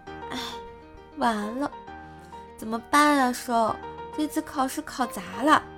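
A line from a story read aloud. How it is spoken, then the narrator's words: Dejected sighing. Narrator (Chinese): 他就觉得自己没有发挥好，在那儿叹气说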